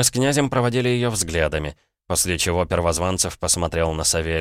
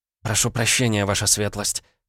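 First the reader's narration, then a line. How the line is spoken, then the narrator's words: Mumbled. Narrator (Russian): пробормотала Наталья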